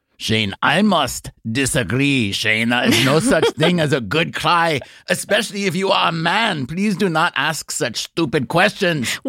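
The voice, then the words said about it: Put-on German accent. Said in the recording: “that was my Teutonic superego that says”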